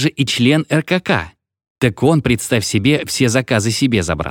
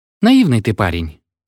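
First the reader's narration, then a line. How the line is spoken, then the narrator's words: Sighing. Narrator (Russian): вздохнул Угрюмый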